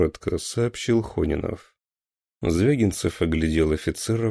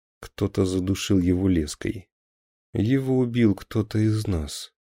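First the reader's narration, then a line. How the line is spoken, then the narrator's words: Grim. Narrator (Russian): мрачно сообщил Хонинов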